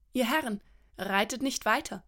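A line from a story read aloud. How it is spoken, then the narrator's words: Plain. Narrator (German): sagte Rhiannon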